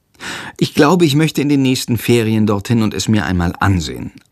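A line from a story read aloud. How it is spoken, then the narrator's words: Plain. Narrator (German): antwortet Jendrik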